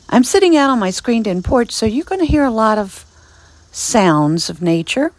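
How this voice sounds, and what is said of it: Raspy voice. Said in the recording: “my voice is a little bit raspy”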